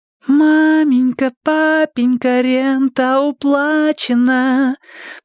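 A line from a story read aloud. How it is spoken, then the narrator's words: Sung in a melodious little voice. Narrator (Russian): пропела Нина мелодичным голоском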